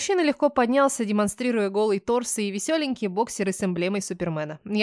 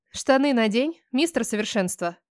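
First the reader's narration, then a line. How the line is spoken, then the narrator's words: Snorting. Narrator (Russian): фыркнула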